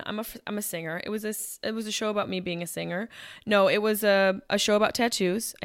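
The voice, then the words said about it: Hoarse, strained voice. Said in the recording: “my voice is kind of gone”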